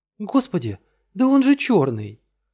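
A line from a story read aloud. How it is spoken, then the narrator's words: Exclamation. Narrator (Russian): воскликнула Стефани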